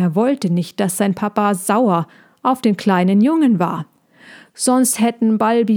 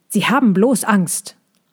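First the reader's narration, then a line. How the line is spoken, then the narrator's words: Called out. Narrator (German): rief Balbi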